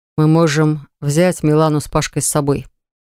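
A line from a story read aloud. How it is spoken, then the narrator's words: Completely serious. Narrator (Russian): проговорил Левон абсолютно серьезным голосом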